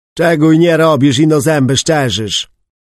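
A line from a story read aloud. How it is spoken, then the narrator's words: Grumble. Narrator (Polish): burknął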